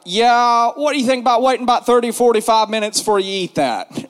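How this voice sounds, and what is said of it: Imitates another person's voice. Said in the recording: “I'm gonna try to do my best impersonation of him as I can.”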